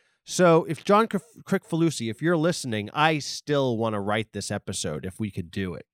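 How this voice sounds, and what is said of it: Usual voice. Nothing is said of it.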